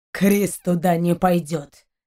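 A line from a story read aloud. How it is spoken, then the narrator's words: Growled. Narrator (Russian): зарычал Шейн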